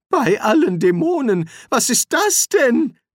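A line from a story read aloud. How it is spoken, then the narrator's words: Wizard calling out. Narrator (German): rief der Zauberer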